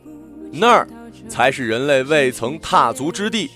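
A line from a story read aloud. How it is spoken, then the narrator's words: Sudden and loud. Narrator (Chinese): 他突然伸手指天，大声地说道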